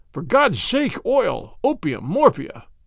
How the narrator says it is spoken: he cried

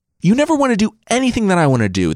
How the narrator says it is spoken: the king shrieked

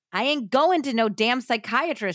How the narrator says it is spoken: she shouted

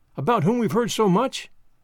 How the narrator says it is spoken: Madge cried, her eyes bright with interest

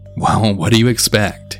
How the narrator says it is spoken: a chuckle, and then say

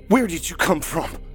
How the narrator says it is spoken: Dave shouted in the pale and hairless creature's face

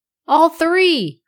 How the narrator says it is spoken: roared Tom

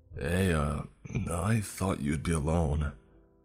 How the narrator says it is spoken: he slurred

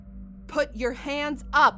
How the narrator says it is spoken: Margot yells

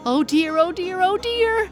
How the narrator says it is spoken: squealed Squinty in his own strange pig language

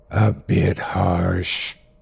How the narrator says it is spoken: he croaked softly, though there was poison in every syllable

